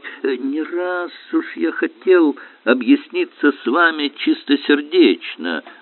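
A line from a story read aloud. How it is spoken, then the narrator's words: Plain. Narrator (Russian): говорит ему Александр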